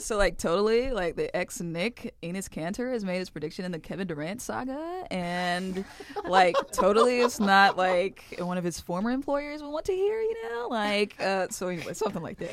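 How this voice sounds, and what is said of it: Valley Girl accent. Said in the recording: “I tried to do a Valley Girl accent ... Valley Girl ... Very good.”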